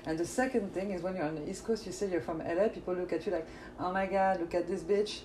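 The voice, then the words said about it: French accent. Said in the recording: “am I hearing an accent? ... I need to know where that accent is from ... me, I'm a Parisian French chick”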